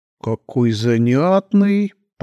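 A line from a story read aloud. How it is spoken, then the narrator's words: Drawn-out drawl. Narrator (Russian): протянула Елена Константиновна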